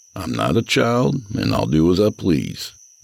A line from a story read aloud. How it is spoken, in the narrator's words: I said in a pleasant tone